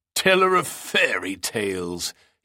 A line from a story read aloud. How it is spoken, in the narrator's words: He spat out the words like the coarsest of insults